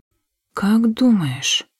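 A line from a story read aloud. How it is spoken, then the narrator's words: Quiet. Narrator (Russian): тихо произнесла я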